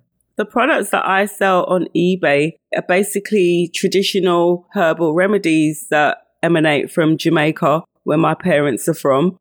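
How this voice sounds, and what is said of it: London English accent. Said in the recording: “you can hear from my accent that I am not Jamaican. I'm from London.”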